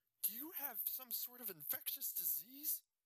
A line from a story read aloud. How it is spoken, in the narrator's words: Ben asked, his voice filled with panic